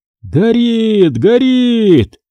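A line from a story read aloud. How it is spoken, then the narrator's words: Shouts all around. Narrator (Russian): кричали вокруг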